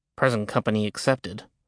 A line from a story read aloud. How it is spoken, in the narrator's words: Jack murmured